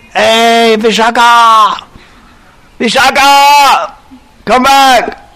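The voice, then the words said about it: Piercing, powerful yelling voice. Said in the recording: “her voice is so powerful. Piercing, powerful.”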